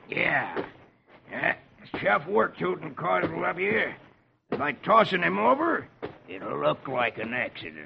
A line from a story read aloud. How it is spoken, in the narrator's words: Etch growls